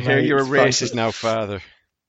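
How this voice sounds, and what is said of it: Put-on Irish accent. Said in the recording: “there's the racist Irish accent there”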